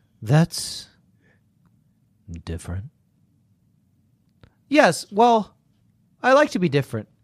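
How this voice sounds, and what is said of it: Sultry, seductive voice. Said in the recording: “I'm going to have to do a sexy voice now”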